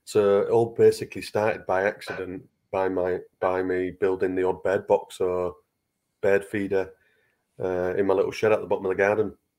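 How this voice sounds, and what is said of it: Strong regional accent. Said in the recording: “I'm sure it's just the accent that I'm not getting here”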